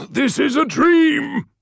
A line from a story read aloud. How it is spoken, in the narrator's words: he replied, shouting over the sound of gunfire and the cries of the dying